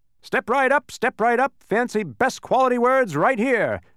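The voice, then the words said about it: Loud booming voice. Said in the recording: “announced one man in a booming voice.”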